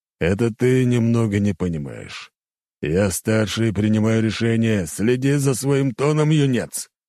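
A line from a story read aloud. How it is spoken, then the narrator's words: Growl. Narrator (Russian): рыкнул он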